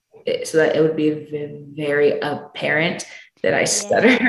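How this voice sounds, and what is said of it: Usual voice. Nothing is said of it.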